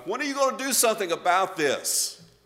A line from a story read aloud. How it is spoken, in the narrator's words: Habakkuk he cried out to God